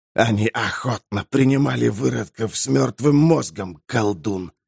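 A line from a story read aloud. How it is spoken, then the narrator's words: Creaky rasp. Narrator (Russian): проскрипел Некротус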